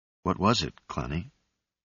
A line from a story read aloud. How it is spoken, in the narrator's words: he asked softly